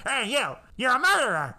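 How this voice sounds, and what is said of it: Imitates another person's voice. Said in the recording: “That's my Al Lewis impression.”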